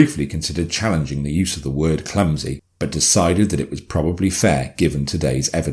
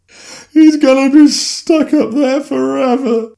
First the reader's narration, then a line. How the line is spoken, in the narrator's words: Jennifer sobbed